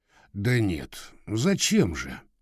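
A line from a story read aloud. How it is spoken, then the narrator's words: Uncertain. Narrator (Russian): неуверенно сказал он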